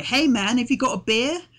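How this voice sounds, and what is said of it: Dodgy fake American accent. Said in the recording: “The dodgy American accent ... from having an American accent to suddenly being very British ... the cheeky Cockney removers at the beginning are all like”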